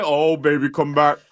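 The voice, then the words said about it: Elvis-style singer impression. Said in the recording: “I am loving your Elvis impersonation. ... It's really good.”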